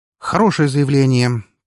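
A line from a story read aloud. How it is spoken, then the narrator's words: Businesslike snort. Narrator (Russian): по-деловому хмыкнул я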